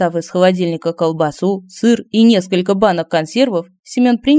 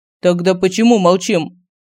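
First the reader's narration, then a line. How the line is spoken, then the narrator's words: Stern question. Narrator (Russian): Строгим голосом спросил Семен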